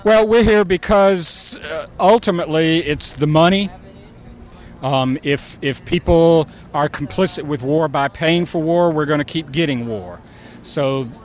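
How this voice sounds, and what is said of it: Regional American accent. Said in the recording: “I love your accent.”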